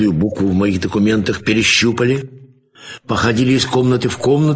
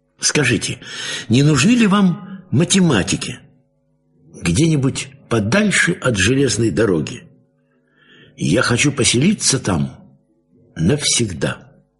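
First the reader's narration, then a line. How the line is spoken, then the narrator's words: Timid request. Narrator (Russian): робко … попросил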